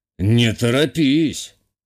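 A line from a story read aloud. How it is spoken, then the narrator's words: Scoffing grunt. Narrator (Russian): хмыкнул мой собеседник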